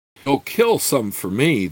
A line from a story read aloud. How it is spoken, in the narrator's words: the boy said earnestly